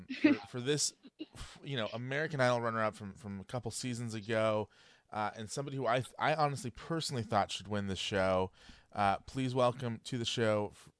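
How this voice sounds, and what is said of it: Tired, low-energy voice. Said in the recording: “I know it doesn't sound like it in my voice. My voice is really tired for some reason”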